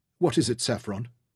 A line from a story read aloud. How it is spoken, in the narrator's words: Alice asked kindly